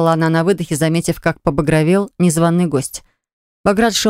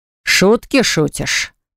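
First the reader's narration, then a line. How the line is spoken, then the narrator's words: Booming. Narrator (Russian): прогремел Баграт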